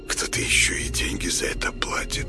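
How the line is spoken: Curious mutter. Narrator (Russian): пробормотал он с любопытством

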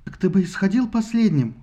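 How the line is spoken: Exclaimed. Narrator (Russian): воскликнула Лаодамия

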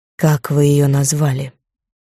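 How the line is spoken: Hoarse, alluring, menacing. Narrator (Russian): В этом хриплом голосе было что-то неуловимо притягательное и в то же время пугающее

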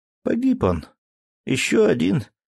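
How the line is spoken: Sad. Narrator (Russian): грустно

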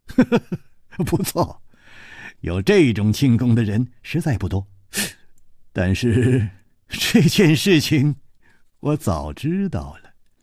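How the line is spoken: Light chuckle. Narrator (Chinese): 楚留香笑了笑说

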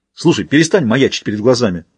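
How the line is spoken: Irritated growl. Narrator (Russian): раздраженно рыкнул Рахим

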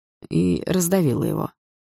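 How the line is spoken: Gloomy addition. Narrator (Russian): добавил мрачно Лёха

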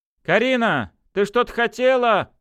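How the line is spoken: Shouting woman. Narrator (Russian): крикнула женщина

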